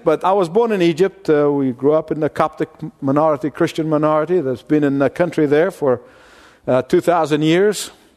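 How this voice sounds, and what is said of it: Foreign-accented English. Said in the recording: “with that kind of funny accent”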